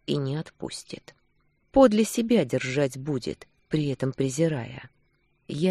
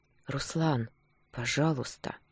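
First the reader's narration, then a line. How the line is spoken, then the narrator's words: Barely audible whisper. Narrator (Russian): Прошептала едва различимо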